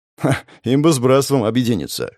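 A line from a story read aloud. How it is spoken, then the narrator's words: Scoffing snort. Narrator (Russian): хмыкнул я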